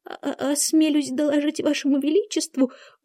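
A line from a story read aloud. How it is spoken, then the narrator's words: Timid speech. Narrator (Russian): робко проговорил двойка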